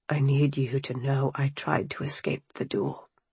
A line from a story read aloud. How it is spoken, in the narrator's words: he whispered